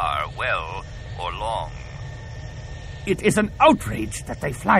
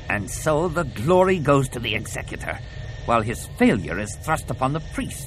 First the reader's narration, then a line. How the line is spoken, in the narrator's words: snarled Kalila